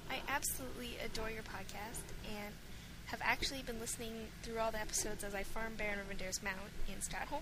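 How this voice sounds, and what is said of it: Canadian English accent. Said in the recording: “I don't have an accent, unfortunately, unless you count Canadian”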